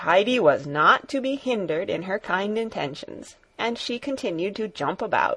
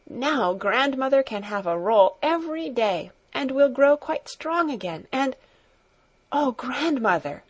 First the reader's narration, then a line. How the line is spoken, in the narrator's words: she suddenly exclaimed, with an increase of jubilation in her voice